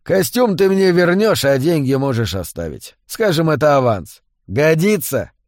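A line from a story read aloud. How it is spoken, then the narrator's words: Chuckling. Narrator (Russian): Хохотнув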